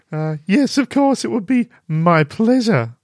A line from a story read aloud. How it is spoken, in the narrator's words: Katie giggled